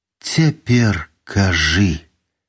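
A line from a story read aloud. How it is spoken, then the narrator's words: Suddenly exhausted request. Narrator (Belarusian): нечакана знясіленым голасам папрасіла яна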